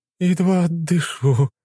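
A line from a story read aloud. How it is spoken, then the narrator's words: Moan. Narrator (Russian): простонала та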